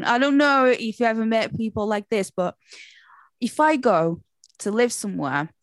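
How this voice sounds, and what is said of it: Portuguese accent with slight Yorkshire. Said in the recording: “I'm Portuguese ... I have been living in Leeds for 20 years ... this is like, you know, my normal English. And then a few words come, there's just a little bit like Yorkshire”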